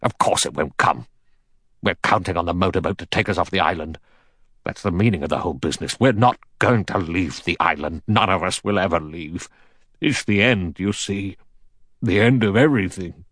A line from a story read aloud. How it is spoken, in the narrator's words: General MacArthur said sharply